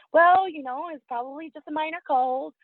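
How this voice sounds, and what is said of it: Mimicking a nurse's voice. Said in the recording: “I'm mimicking her voice because it annoyed me at the time.”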